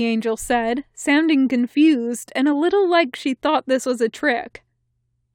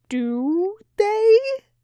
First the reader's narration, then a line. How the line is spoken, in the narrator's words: Crowley asked nervously